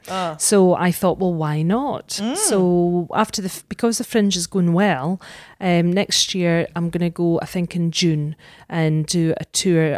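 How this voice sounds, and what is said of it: Scottish accent. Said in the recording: “because you're Scottish ... You're a sucker for an accent”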